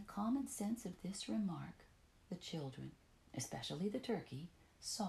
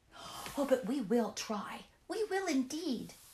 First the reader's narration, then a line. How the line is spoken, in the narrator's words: cried